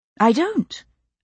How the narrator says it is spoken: I repeated, a little more calmly

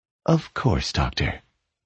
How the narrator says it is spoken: Deja replied calmly

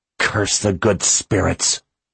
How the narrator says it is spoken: she growled

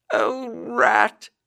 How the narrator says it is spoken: he cried

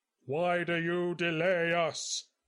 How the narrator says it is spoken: he boomed

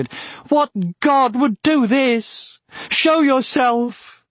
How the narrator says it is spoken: Frustrated and terrified, he shouted

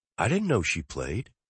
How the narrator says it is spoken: Holly whispers

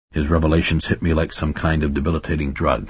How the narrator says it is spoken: he said, speaking in the low but carrying tone of one who recites rather than simply speaking

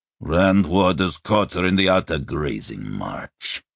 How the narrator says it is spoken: Fekolmich growled

